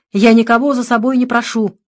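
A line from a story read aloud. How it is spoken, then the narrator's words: Very angry reply. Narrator (Russian): отвечал священник крайне сердито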